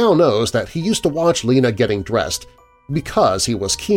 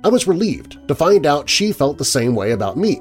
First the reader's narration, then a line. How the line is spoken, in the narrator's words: said Tom